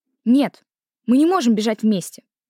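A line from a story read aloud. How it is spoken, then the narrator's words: Stern. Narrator (Russian): строго сказала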